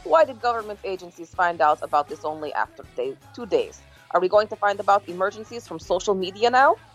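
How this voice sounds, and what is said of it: Generic put-on Eastern European accent. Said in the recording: “That's like the most generic East European accent of all time... That doesn't sound like any particular country... That is not how Putin talks.”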